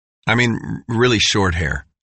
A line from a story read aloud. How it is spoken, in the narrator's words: said Dale